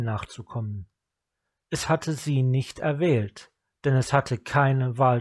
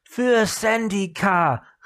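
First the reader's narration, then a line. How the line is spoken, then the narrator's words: Called out. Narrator (German): rief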